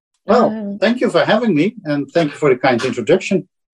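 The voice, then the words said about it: Dutch accent in English. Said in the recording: “my Dutch accent”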